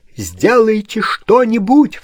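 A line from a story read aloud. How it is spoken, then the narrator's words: Sudden cry. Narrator (Russian): вскрикнул барон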